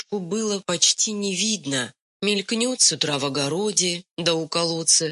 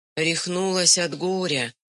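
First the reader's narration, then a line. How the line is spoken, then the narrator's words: Sad gossiping. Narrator (Russian): грустно судачили соседки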